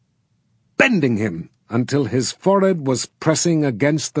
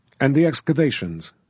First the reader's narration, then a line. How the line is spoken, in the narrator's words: said anxiously